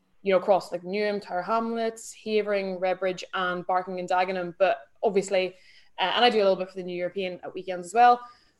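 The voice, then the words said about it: Northern Irish accent. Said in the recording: “I'm Irish, but I grew up in Northern Ireland. So sort of in between Derry and Belfast, hence the accent ... the accent doesn't really dissipate ... I'm still very, very Irish sounding ... It's a wonderful accent.”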